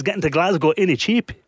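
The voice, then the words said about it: Bad mixed Geordie-Scottish-Welsh accent. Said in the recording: “that was the worst accent I've ever heard ... a cross between Geordie, Scottish, and maybe a bit of Welsh thrown in there as well”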